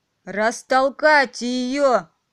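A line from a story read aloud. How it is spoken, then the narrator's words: Roaring queen. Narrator (Russian): взревела королева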